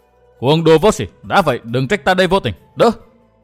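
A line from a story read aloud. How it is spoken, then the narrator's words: Furious young man shouting. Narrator (Vietnamese): làm cho Kha Nhân bừng bừng lửa giận, chàng quát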